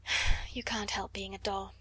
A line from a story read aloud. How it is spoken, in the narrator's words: she said with a resigned sigh